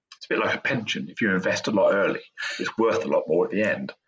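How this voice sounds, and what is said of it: Native British accent. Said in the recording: “I talk with a native British accent”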